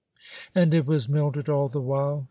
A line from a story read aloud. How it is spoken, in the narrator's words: exclaimed in a controlled voice, despite the excitement